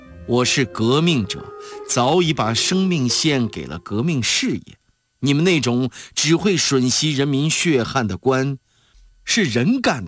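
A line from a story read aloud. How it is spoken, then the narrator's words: Cold laugh, stern righteous. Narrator (Chinese): 邓中夏一阵冷笑，义正辞严地说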